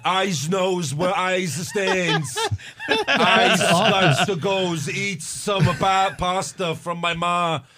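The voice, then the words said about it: Exaggerated, overdone New York accent. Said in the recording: “his accent is so obnoxious and he's like overdoing it ... trying to do his New York accent”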